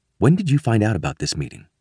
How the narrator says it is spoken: ask quietly

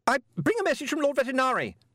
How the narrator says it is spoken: the man shouted

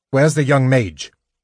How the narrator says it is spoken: Gylfanas asked harshly

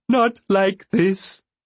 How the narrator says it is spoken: Beloved wailed

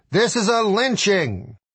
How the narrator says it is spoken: Jack Kevorkian startled a Michigan courtroom when he stood up and shouted

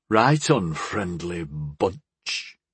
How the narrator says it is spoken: he muttered

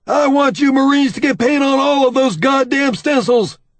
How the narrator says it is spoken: he barks

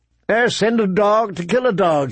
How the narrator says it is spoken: he exclaimed

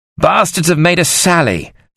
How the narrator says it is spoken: Sir John said urgently

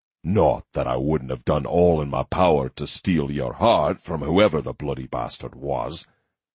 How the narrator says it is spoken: he added in a fierce growl

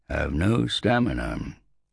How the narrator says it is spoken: said Drus sadly

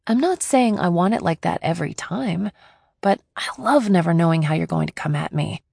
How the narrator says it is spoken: I said

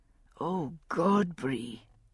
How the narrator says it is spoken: he murmured into her hair

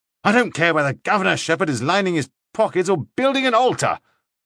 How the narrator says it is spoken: Lauderback snapped

